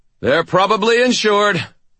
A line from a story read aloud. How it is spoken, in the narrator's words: I shouted